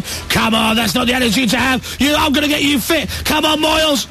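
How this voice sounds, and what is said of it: Shouting like a drill trainer. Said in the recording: “stop shouting? ... don't shout.”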